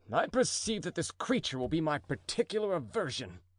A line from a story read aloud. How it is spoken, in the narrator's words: he muttered